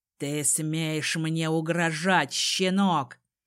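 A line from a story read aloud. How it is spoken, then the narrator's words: Father growling. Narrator (Russian): прорычал отец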